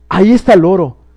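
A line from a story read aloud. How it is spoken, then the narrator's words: Exclaimed. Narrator (Spanish): exclamó Scrooge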